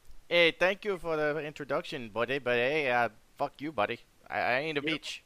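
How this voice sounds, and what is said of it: Bad put-on Canadian accent. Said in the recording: “You're doing a terrible Canadian accent.”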